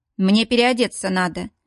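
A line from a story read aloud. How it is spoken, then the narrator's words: Dry comment. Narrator (Russian): сухо комментирует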